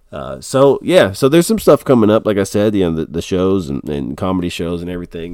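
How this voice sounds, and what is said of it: Congested, tired, deeper voice. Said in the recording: “I'm a little bit stopped up and tired ... my voice, it's coming back, but it's a little bit, I'm dropping that bass on you, you know, that boom, boom, boom bass”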